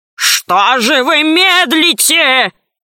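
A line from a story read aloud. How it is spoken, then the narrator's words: Monstrous creature's growl. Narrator (Russian): зарычало существо, похожее на слона и осьминога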